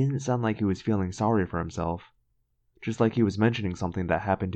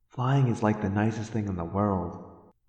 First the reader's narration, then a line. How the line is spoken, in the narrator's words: I said dreamily